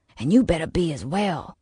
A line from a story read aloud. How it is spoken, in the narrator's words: hissed back at him